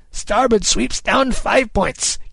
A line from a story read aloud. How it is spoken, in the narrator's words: Kid cried